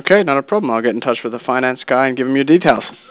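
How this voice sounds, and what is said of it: Australian accent. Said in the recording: “what's your accent? Is that Australia or what? ... Yes, that is correct.”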